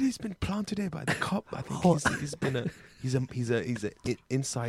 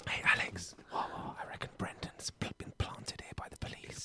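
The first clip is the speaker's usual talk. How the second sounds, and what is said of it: Whispered, hard to make out. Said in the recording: “you're whispering. I can't quite make out what you're saying.”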